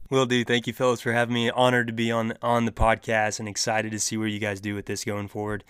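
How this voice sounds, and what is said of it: Slight Southern drawl. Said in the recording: “I'm slowly getting my draw back now that I'm home ... a little bit of a little draw to your accent.”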